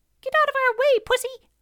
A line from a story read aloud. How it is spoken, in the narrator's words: squeaked